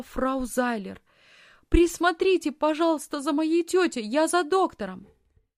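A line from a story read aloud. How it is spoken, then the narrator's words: Shout while leaving. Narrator (Russian): По пути она крикнула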